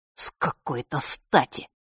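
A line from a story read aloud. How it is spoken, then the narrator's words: Through gritted teeth. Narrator (Russian): процедил Фэш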